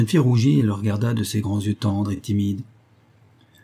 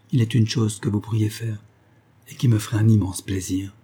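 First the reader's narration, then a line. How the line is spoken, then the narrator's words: Gentle. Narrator (French): dit-il doucement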